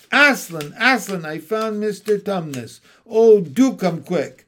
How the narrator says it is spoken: Lucy came rushing upstairs shouting out

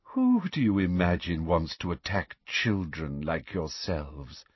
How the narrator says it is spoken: inquired Professor Umbridge in a horribly honeyed voice

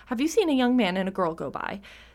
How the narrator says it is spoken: said the king

